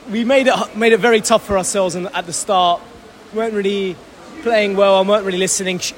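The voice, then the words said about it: Croaky, strained voice. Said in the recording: “my voice is very croaky. I've been shouting so much at the boys.”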